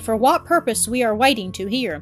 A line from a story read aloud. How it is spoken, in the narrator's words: remarked Catherine stiffly